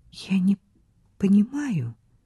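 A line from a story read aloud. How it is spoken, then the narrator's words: Whisper. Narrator (Russian): прошептала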